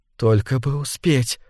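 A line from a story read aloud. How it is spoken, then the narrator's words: Whispered. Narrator (Russian): шептала она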